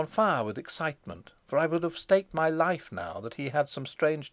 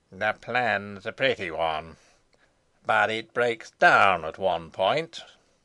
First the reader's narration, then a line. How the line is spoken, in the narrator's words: said he, in a strange voice, even harsher than his was wont to be